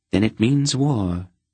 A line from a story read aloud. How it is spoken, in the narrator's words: the queen asked sadly